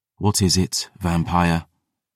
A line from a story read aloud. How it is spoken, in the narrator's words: Gabriel sighed